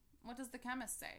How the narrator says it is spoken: asked Cosmo

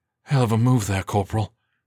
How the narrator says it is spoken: Galindo breathed

